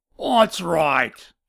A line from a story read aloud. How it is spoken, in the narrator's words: shouted back